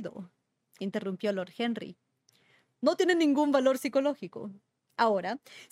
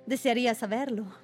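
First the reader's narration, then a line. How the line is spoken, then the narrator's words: Plain. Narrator (Spanish): dijo por fin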